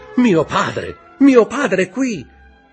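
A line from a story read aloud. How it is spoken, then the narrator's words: Shout. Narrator (Italian): Il giovane Andrea gridando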